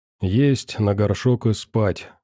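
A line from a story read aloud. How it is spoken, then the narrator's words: Sighing. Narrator (Russian): вздохнул Мороз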